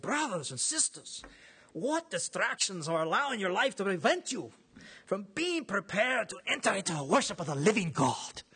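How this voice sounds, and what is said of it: Imitates a preacher's voice. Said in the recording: “my imitation probably wasn't that good”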